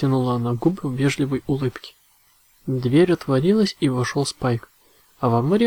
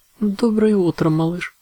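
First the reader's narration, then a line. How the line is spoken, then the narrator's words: Warm, friendly exclamation. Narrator (Russian): со всей своей приветливостью воскликнула посол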